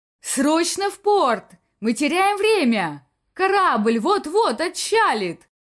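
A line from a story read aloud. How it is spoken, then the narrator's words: Shouted reply. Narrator (Russian): прокричал в ответ инспектор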